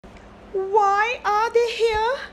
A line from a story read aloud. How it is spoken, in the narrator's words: Androcles asked nervously